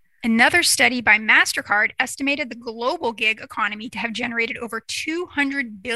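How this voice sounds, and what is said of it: Usual voice. Nothing is said of it.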